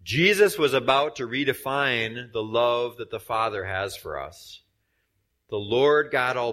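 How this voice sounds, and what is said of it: Usual voice. Nothing is said of it.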